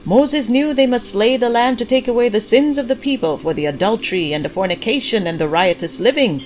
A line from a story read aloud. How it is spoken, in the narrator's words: Pastor Clyde shouted